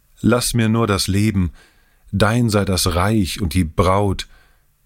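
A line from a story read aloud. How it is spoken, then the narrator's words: Calling out desperately. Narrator (German): rief er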